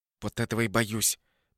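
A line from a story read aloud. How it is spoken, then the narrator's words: Quick angry whisper. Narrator (Russian): быстрым злым шепотом ответила Надя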